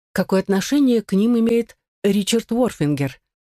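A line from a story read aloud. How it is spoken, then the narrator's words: Plain question. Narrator (Russian): спросила Эдипа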